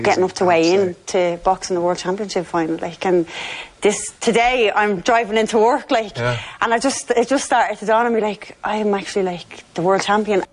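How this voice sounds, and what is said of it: Staccato Dublin accent. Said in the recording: “by the staccato nature that's a Dublin accent”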